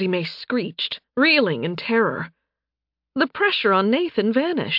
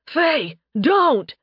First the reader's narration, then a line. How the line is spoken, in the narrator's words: Nathan shouted